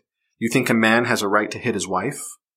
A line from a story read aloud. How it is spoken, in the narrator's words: Adar snorted